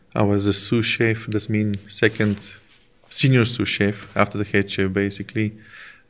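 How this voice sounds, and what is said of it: Foreign accent in English. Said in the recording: “no one judge you um, about your accent, about you a foreigner”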